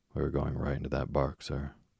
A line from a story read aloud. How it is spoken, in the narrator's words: Another voice cried warningly